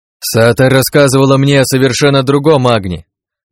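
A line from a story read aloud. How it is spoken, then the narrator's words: Loud. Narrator (Russian): громко произнес я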